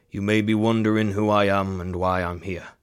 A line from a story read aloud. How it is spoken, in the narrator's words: Ezekiel began, his voice steady and grave